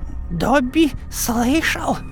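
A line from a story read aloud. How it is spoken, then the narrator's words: Hoarse. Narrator (Russian): хрипло произнес он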